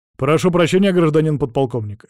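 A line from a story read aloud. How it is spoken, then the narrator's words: Barked. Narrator (Russian): рявкнул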